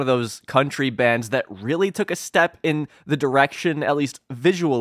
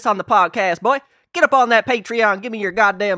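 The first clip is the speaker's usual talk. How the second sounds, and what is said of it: Put-on southern accent. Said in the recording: “southern accent ... start talking like this”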